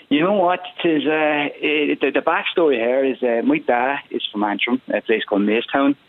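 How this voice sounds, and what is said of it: Mixed Northern Irish and Cork accent. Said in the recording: “That's not a Cork accent I'm detecting, is it?... So you've got a twinge of both.”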